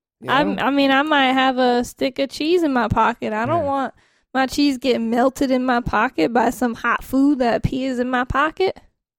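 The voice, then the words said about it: Put-on fake accent, slipping. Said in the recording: “What happened to your voice? ... I might have messed up my accent a little bit. ... I'm not a professional fake yet.”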